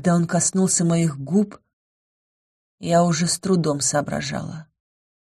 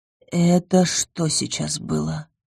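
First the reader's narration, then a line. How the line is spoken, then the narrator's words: Hoarse question. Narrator (Russian): хрипло уточнила я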